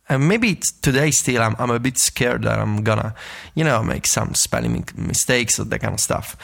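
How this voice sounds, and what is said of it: Non-native English accent. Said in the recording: “it's not my first language, and as you might tell from the accent”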